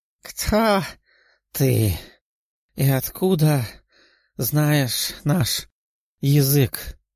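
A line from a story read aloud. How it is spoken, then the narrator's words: Creature's near-hoarse question. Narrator (Russian): едва ли не хрипя спросило существо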